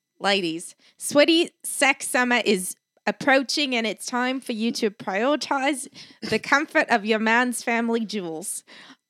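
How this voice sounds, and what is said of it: Put-on Australian accent. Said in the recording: “we were going to do accents ... I was been practicing my Australian.”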